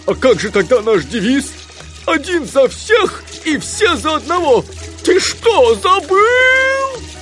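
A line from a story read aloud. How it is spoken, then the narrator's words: Roaring. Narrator (Russian): взревел Гуфи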